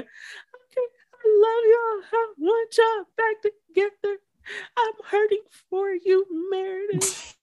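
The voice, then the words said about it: Mock crying imitation of another person. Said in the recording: “crying and boohooing ... this impersonation”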